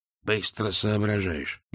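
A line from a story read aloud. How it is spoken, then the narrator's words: Grunted. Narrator (Russian): буркнул Биллет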